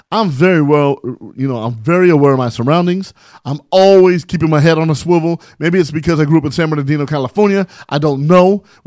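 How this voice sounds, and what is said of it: Talking very fast, agitated. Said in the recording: “Why are you talking so fast ... Why are you so mad?”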